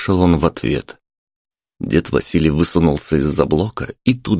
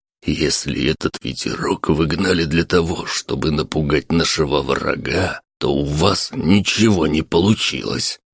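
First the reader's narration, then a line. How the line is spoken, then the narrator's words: Angry whisper. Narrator (Russian): сердитым шепотом сказал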